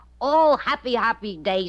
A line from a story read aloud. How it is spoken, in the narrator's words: said Benji